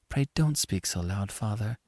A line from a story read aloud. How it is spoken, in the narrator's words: whispered Annie